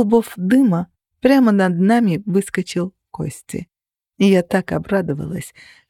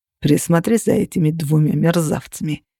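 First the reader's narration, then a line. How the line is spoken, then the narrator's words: Grumbling. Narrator (Russian): проворчал Костя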